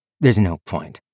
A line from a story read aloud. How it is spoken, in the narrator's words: said Viv